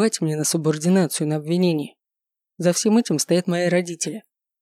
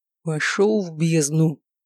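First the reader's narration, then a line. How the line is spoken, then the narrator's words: Through gritted teeth. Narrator (Russian): процедил я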